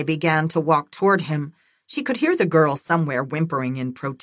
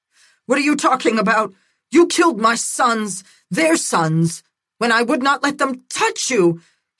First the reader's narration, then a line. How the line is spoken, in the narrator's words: screamed into the night